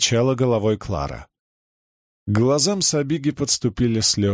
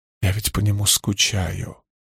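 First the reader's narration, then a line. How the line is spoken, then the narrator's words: Whisper. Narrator (Russian): прошептала Сабига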